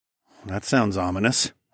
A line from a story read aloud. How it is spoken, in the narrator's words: I said dryly